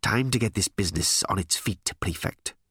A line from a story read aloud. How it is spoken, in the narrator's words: he snapped